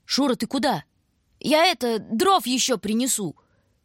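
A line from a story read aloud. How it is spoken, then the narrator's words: Shout. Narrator (Russian): крикнул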